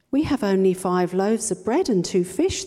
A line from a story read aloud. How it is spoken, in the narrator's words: answered